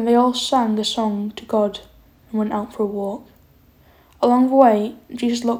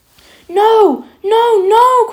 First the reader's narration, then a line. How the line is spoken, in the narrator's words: cried Peter